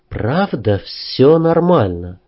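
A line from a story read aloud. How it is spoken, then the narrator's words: Quiet question. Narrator (Russian): Танюшка тихо спросила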